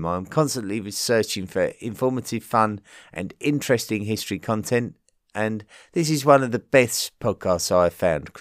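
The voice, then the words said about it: Regional British Isles accent. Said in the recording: “his absolutely wonderful accent ... the accent from my area of the British Isles was classed as the second least attractive accent of the British Isles”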